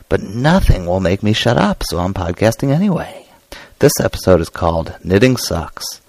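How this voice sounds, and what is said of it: Hoarse, laryngitis-affected voice. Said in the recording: “As you can probably tell, I have laryngitis this week.”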